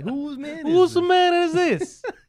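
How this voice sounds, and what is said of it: Put-on Italian accent. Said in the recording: “With the Italian accent.”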